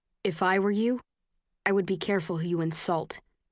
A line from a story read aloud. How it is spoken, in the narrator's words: he says